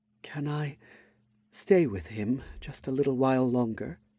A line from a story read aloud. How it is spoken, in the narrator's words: Sprigga asked softly, her shoulders trembling